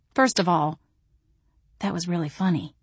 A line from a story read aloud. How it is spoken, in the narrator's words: I whispered